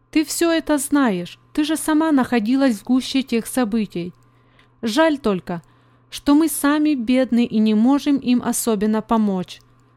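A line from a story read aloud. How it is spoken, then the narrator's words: Plain. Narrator (Russian): сказала она Мии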